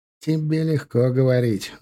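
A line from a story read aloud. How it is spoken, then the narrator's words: Sigh. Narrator (Russian): вздохнул он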